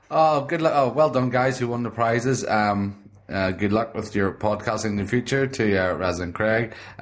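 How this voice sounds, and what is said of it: Northern Irish Belfast accent. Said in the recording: “where your accent's from? ... I'm from Belfast in Northern Ireland.”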